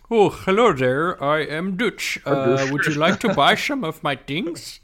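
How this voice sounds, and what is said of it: Fake Dutch accent. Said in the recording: “fake a Dutch accent”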